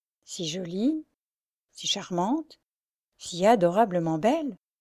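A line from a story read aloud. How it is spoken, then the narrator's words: Plain. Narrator (French): dit-il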